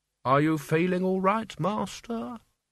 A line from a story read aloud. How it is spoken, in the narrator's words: said Albert, his voice full of concern